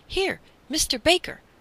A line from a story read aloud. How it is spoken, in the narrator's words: the man called excitedly